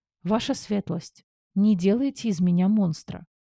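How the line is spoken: Sighing sincere plea. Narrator (Russian): Вздохнув, попросила от чистого сердца

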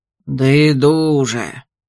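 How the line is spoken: Gloomy sigh. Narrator (Russian): Мрачно вздохнул Ольсон

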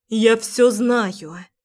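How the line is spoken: Broken voice. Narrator (Russian): произношу надломленным голосом

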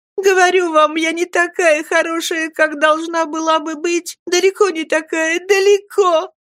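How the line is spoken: Heartbroken sobbing. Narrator (Russian): И она рыдала так, что, казалось, сердце ее готово было разорваться на части

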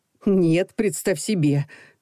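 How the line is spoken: Nervous laugh. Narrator (Russian): нервно рассмеялась она

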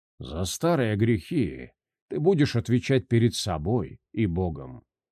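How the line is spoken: Quiet. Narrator (Russian): негромко произнес монах

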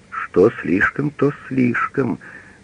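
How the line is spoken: Stunned mutter. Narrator (Russian): пробормотал он, услышав, что его свиньи проданы в 20 раз дороже против закупочной цены

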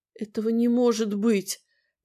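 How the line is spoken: Whisper. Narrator (Russian): прошептала

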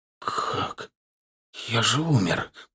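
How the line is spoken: Whisper. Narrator (Russian): прошептал я

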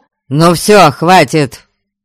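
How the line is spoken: Barked. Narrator (Russian): рявкнул Гарольд

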